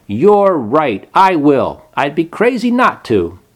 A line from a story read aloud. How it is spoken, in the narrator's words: Then he stood up and shouted